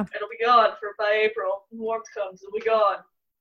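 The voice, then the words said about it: Imitates another person's voice. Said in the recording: “great Trump impression”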